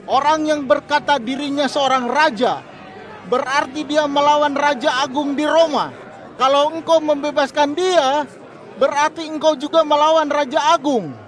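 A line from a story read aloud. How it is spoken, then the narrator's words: Leaders shouting. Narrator (Indonesian): para pemimpin Yahudi berteriak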